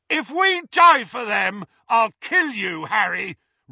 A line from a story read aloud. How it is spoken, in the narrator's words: roared Ron's voice